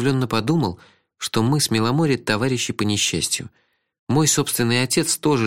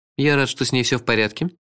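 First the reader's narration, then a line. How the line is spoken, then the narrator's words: Dry. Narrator (Russian): сухо сказал сэр Корво Блим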